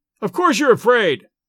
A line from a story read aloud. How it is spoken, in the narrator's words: I shouted